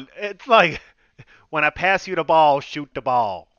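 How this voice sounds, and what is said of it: Imitates another person's voice. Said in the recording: “my Avery Johnson impersonation”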